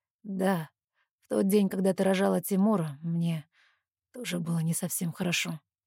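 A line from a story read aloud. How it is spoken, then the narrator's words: Strange unfamiliar voice. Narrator (Russian): чужим голосом говорит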